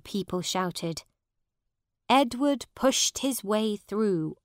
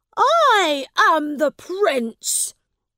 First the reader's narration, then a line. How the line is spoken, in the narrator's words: said angrily